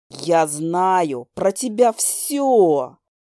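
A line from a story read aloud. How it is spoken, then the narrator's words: Hissing. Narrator (Russian): прошипел демон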